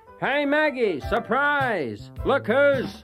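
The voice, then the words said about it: Triumphant shouting voice. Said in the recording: “cried out in a triumphant voice”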